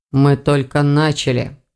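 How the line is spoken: Wry chuckle. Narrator (Russian): хмыкнул Эверетт

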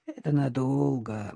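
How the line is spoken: Gloomy speech. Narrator (Russian): мрачно проговорила Надежда Николаевна

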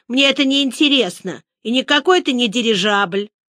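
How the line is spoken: Grumpy girl, angry voice. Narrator (Russian): Из-за пробок на дороге и толчии в автобусе девочка была в плохом настроении и сердитым голосом сказала

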